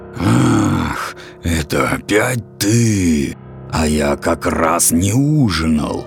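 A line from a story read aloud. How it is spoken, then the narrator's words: Hissing dragon. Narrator (Russian): прошипел дракон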